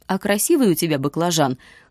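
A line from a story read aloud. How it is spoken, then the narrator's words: Chuckling. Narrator (Russian): хохотнул Юрик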